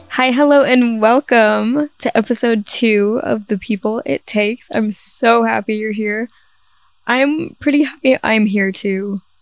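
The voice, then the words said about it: Weak, partly lost voice. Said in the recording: “my voice is a little gone ... I had no voice the entire last week ... I have enough voice to talk”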